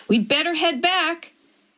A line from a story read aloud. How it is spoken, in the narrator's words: Cheryl shouted